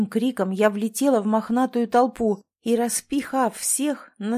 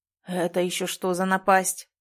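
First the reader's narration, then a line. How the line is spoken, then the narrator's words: Growling. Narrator (Russian): прорычал оживший солдатик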